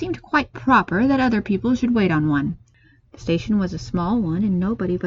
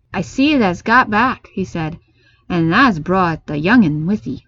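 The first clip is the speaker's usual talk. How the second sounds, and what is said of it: Rough, broad Yorkshire accent. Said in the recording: “spoke to Mrs. Medlock in a rough, good-natured way, pronouncing his words in a queer, broad fashion, which Mary found out afterward was Yorkshire”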